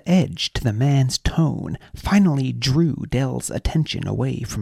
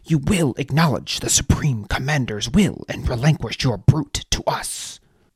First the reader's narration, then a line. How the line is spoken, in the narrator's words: snapped the soldier